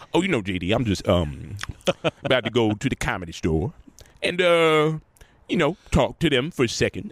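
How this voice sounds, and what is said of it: Impression of speaker's father. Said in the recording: “I do a voice of it, I do his impression”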